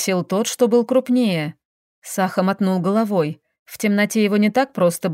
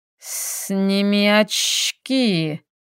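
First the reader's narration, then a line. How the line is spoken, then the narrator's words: Hiss. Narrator (Russian): Прошипел другой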